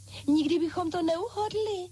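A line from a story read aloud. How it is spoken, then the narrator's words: Exclaimed together. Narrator (Czech): zvolali pany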